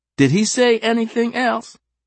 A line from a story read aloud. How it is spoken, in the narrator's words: Sophia called out